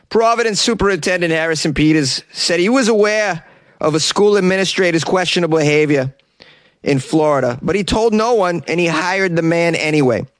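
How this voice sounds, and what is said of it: Put-on Providence, Rhode Island accent. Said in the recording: “Let's give you a little Providence accent.”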